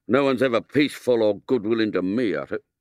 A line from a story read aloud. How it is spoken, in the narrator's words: put in William bitterly